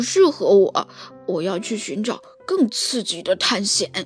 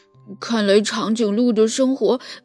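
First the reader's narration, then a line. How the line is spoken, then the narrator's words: Sighing remark. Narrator (Chinese): 小猪感叹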